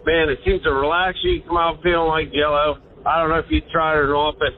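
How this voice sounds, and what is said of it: Pittsburgh accent. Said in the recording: “I love that accent, by the way. ... Yeah, Pittsburgh accent.”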